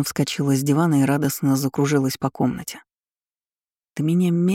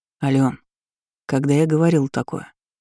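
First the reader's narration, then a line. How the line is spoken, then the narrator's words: Serious question. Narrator (Russian): Серьезным тоном спросил я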